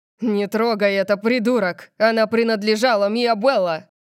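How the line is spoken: Roared. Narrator (Russian): Диего взревел

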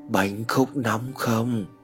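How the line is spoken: Man whispering. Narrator (Vietnamese): một giọng đàn ông thì thầm vang lên

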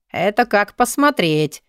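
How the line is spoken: Snide laugh. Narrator (Russian): ехидно рассмеялся Алви

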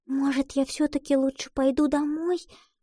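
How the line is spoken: Fearful whisper. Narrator (Russian): боязливо прошептала Лотти

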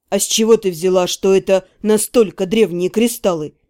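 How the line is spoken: Scoffing reply. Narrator (Russian): хмыкнул в ответ Кертен

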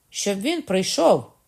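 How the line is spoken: Surprised cry. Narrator (Ukrainian): скрикнула Маргарита, з подивом

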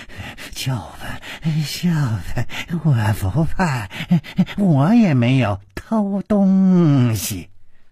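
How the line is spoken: Panting. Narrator (Chinese): 师传宗喘着气说

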